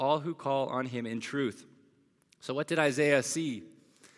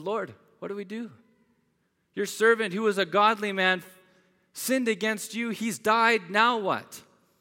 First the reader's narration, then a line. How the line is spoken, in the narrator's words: he called out to the Lord